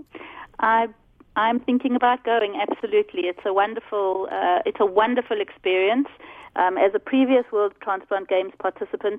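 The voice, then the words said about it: South African accent. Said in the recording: “I detect a South African accent”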